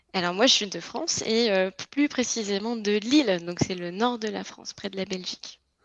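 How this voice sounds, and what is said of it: French accent from France. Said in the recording (French): “pour ceux qui n'auraient pas reconnu à ton accent, tu es française”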